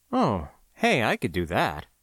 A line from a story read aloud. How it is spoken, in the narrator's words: muttered